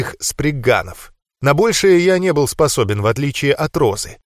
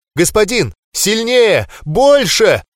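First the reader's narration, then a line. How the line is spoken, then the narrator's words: Scream in unrecognizable voice. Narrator (Russian): закричала не своим голосом Роза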